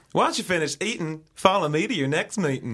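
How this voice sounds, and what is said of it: Patchy put-on Texas accent. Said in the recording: “Texas accents ... My Texas accent is just appalling ... it's patchy, ... It's always so patchy.”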